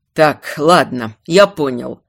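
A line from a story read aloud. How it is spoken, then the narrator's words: Snorting. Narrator (Russian): хмыкнул морской хранитель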